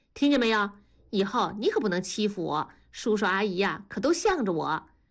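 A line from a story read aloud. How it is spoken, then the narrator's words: Laughing. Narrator (Chinese): 庐山笑着看了大宝一眼说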